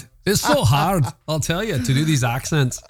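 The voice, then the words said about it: Put-on Scottish accent. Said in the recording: “I can do a good Scottish accent if you put me up to it ... Oh, it's good.”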